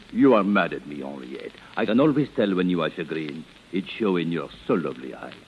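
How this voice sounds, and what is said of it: Phony foreign accent. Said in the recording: “drop the phony accent”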